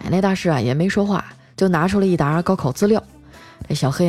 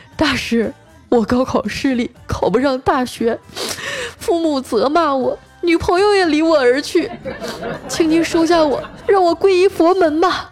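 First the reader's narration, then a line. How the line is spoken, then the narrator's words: Tearful pleading complaint. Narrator (Chinese): 高考失利的小黑啊，跟那个大师去哭诉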